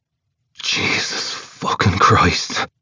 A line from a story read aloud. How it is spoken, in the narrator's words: he hisses